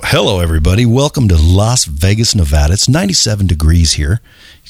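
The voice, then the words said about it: DJ-style radio announcer voice. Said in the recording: “the radio guys mixed with a strip club DJ ... It's almost like DJ-ish.”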